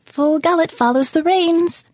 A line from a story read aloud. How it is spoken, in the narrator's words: the bird chirped